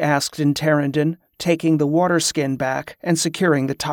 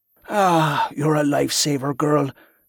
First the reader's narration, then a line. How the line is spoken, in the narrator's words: the man breathed with a contented smile